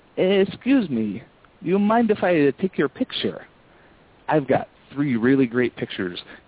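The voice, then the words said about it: Put-on foreign accent. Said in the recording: “I put on a foreign accent.”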